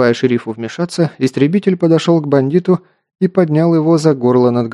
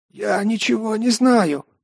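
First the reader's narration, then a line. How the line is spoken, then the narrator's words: Hoarse rasp. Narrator (Russian): прохрипел преступник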